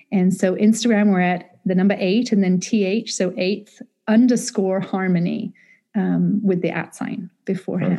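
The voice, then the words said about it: British accent, calming. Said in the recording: “Get to hear the British accent right away. just the accent alone for me is very calming.”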